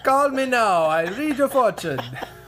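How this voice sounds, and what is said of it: Bad impression, put-on Jamaican accent. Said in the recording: “my bad impersonation of Miss Cleo ... She wasn't even Jamaican.”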